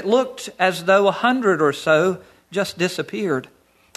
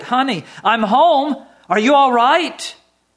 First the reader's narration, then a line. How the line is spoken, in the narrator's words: I rushed in the door and shouted